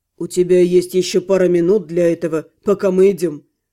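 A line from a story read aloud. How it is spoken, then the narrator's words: Scoffing. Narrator (Russian): хмыкнул Алиорн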